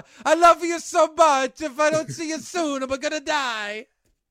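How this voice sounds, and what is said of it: Italian-accented Godfather Clemenza impression. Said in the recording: “doing an Italian impersonation of Cody Rhodes ... It's from The Godfather ... That's Clemenza talking to Michael.”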